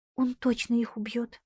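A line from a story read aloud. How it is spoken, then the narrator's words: Frightened voice. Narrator (Russian): испуганным голосом произнесла Линетта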